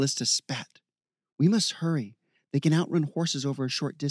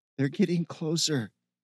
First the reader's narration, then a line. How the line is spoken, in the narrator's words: Ken moaned